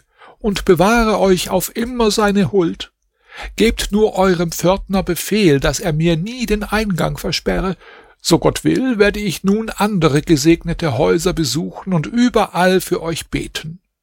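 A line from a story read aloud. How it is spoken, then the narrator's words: Old woman calling. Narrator (German): rief die Alte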